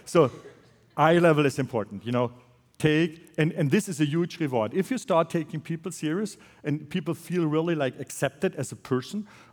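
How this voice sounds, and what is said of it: Accented non-native English. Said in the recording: “with my accent, it's sometimes difficult to get the story around”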